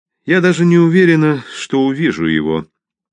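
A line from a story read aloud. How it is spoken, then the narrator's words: Sad. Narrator (Russian): печально произнесла Мэрибет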